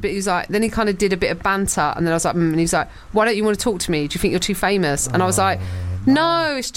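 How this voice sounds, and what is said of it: Usual voice. Nothing is said of it.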